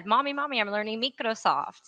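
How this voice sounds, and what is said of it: Imitating a child's accent. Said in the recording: “that's her accent”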